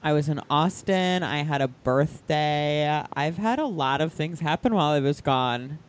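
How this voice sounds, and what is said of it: Speaks with vocal fry. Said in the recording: “That vocal fry has been missed”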